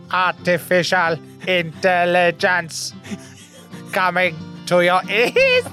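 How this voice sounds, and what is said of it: Weak attempt at robot voice. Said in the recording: “Can you do a robot voice ... It's weak.”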